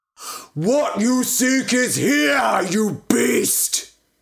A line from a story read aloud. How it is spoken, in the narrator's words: he bellowed